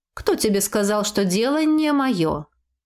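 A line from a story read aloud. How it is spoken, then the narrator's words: Matter-of-fact tone. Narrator (Russian): будничным тоном проговорила моя защитница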